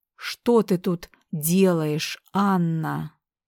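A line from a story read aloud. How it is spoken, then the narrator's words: Growling. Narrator (Russian): Прорычал он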